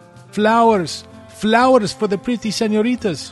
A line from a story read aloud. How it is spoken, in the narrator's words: one said with a thick accent